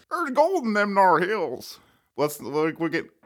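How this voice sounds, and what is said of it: Imitates an old movie cowboy's voice. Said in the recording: “how do you do an impression of him? ... He's a cowboy. He played a cowboy in a lot of movies.”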